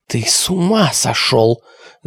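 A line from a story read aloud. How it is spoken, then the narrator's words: Hissing. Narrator (Russian): зашипела Алиса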